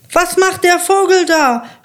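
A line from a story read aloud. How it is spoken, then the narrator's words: Shouting. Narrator (German): schreit der Graf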